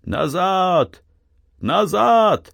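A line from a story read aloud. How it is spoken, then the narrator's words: Loud shout. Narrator (Russian): громко закричал Артем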